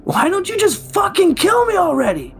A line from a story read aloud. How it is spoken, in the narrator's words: Jeremy laughed, a shrill sound void of much sanity, before yelling